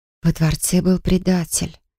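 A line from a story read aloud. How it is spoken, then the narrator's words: Whisper. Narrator (Russian): прошептала я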